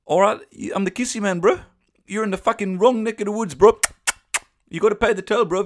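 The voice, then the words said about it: Put-on South African/New Zealand-ish accent. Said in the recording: “I don't know what accent this is. I think it's somewhere in between a kind of South African and New Zealand.”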